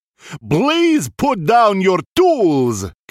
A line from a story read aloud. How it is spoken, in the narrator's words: came the reply, in a very calm yet booming voice